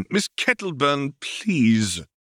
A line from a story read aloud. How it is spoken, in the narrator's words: cried Tom